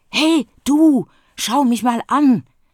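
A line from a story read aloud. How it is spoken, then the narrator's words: Hiss. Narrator (German): zischt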